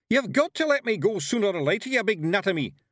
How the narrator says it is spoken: yelled Rob Anybody

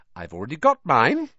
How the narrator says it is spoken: said Hermione brightly

